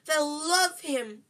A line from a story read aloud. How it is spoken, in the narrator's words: cried Aunt Petunia rapturously